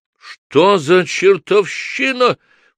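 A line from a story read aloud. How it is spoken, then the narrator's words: Unnaturally shrill shout. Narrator (Russian): прокричал продавец неестественно пронзительным голосом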